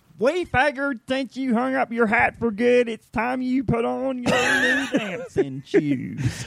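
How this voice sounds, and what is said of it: Campy exaggerated Southern accent. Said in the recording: “the really hokey Southern accent ... it started out as the Diet Coke of what it ended ... Alan Ball would be like, do a little more ... it's going to get too campy ... it sounded something like”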